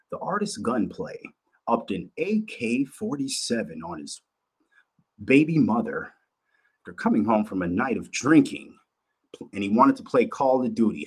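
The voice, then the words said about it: Mock news anchor voice. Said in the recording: “my news voice”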